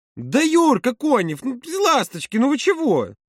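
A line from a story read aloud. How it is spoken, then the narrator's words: Louder exclamation. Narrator (Russian): воскликнула Маша еще громче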